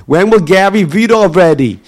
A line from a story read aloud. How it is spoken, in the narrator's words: they will shout out